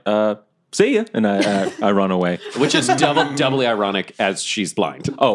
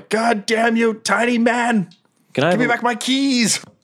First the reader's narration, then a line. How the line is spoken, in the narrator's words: The drow yells